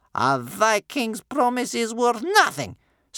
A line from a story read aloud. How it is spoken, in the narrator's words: spat Bear Cub's grandmother